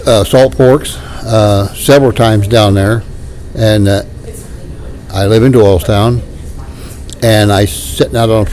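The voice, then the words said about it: Hillbilly accent. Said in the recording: “my hillbilly accent's coming out.”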